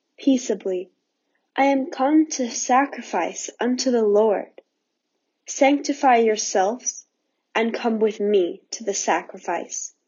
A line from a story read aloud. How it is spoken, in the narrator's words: the old man looked kindly upon them and answered quietly